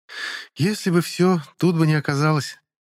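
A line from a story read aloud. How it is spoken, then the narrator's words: Sighing. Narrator (Russian): вздохнула оперативница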